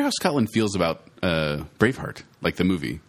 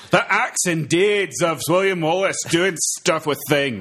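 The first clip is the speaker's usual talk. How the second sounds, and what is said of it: Poor fake Scottish accent. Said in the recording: “Now say it with a Scottish accent. ... That was terrible Scottish.”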